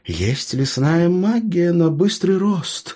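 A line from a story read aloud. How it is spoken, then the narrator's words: Uncertain reply. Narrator (Russian): неуверенно ответил хранитель леса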